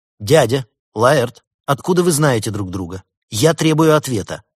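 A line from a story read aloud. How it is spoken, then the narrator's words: Angry. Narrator (Russian): сердито произнесла Елена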